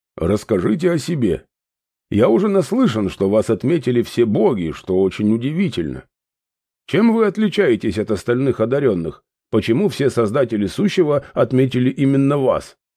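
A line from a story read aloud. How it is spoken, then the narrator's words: Plain question. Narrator (Russian): спросил он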